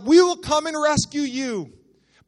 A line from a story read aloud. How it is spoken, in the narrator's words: they yelled out